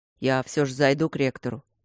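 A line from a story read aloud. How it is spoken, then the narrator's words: Deep bass voice. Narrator (Russian): пробасил Матвей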